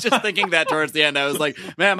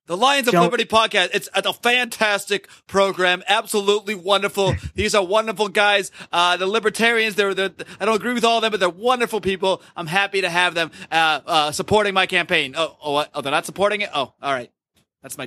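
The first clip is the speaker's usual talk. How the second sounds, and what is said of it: Donald Trump impression sounding like Bernie Sanders. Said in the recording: “That sounds like Bernie Sanders, like impersonating Donald Trump. ... my Trump is really starting to merge with my Bernie”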